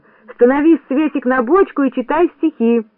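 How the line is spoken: Shout. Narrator (Russian): Кто-то крикнул

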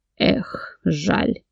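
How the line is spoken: Grumbled. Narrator (Russian): Паник Артур проворчал

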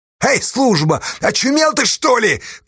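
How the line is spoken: Shout. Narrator (Russian): крикнул Ефимычу Асташа

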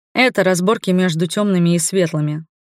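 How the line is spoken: Calm. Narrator (Russian): спокойно ответил Ивар

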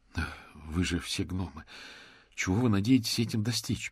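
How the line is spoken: Groaning. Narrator (Russian): простонал мокрец

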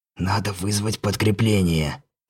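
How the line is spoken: Angry whisper. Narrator (Russian): злым шепотом встретил меня Рамон

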